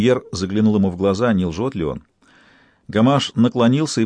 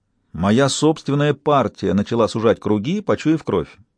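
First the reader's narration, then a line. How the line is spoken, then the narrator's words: Plain. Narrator (Russian): сказал премьер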